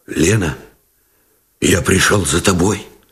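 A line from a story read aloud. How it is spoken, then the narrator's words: Muffled and hoarse. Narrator (Russian): Глухо и хрипло выговорил Новиков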